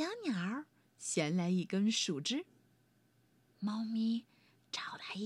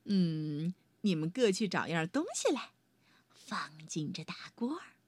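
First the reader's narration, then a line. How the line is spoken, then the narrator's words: Mysterious, smiling. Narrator (Chinese): 她神秘地笑了笑，说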